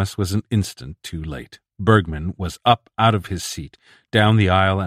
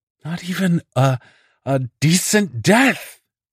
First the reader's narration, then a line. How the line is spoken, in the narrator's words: was screaming